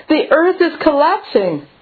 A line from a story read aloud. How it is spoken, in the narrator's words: Startled by this sound, the hare cried